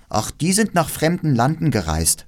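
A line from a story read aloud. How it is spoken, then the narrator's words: Plain. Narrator (German): sagte das Räubermädchen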